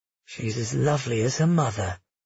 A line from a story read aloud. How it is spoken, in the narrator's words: he murmured